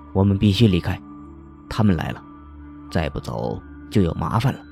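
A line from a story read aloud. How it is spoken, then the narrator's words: Very serious. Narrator (Chinese): 方墨的声音异常严肃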